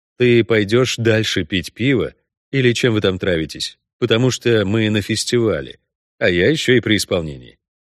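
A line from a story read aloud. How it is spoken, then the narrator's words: Calm statement. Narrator (Russian): спокойно сообщил Геральт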